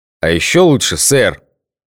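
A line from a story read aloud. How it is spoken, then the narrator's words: Growl from above. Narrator (Russian): рыкнул сверху Гоша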